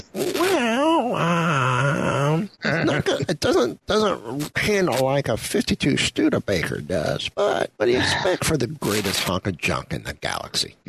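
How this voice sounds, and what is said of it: Decent impression of a film character. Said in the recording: “Not a bad impression, by the way. ... You are almost as annoying as him.”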